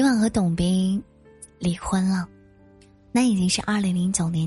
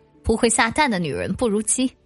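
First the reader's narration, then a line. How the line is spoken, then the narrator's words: Sneering. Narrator (Chinese): 董斌冷笑了一声说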